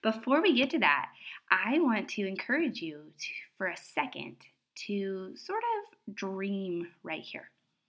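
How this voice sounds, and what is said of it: Congested, stuffy-nosed voice. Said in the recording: “I sound like less of a hippo. I feel like when my nose is stuffed and I'm sick, I sound like a hippo. ... a little bit less of a hippo today”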